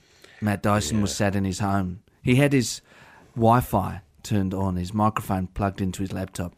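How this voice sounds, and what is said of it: Put-on Australian drifting South African accent. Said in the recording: “I don't know why I've done it as a South African. ... It started a bit Australian, then it went to Africa.”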